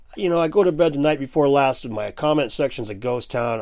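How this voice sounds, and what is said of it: Slightly itchy, under-the-weather voice. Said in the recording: “I'm feeling a little bit under the weather and my voice is a little bit itchy”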